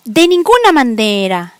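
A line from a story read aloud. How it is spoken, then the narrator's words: Chimpanzee shrieking. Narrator (Spanish): chilló el chimpancé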